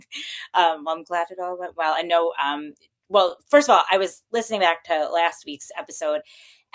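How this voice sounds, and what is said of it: Thick New Jersey accent. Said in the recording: “my thick New Jersey accent”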